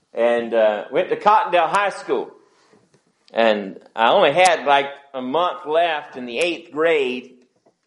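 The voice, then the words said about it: Natural regional accent. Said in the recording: “sorry for the accent, but you know, I got it naturally”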